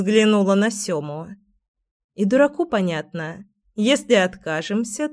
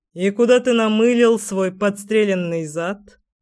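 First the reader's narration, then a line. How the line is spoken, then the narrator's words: Smirking. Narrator (Russian): хмыкнул Кир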